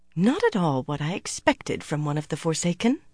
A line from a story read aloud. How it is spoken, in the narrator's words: Anaya muttered only half under her breath